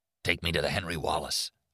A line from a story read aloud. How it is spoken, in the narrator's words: Arnie muttered